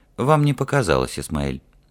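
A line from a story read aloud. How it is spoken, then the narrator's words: Sighing. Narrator (Russian): Ральф вздохнул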